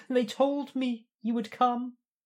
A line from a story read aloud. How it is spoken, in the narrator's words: he whimpers, half in ecstasy, half in fear